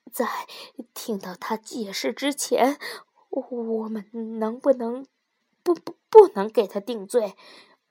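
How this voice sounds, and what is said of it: Trembling, shaky voice. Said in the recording (Chinese): “颤抖的声音说”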